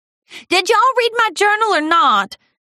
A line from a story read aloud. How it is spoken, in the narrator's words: Applejack blurted out in despair